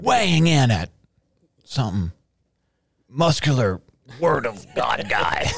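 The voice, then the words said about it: Announcer voice. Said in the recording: “It's my announcer voice. I don't know. I fall into that.”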